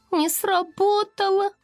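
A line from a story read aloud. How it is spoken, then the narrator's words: Sad squeak. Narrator (Russian): печально пискнула Локет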